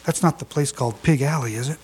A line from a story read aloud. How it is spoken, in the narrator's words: He leaned toward me and whispered